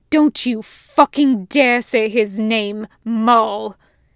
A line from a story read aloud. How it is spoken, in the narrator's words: He growls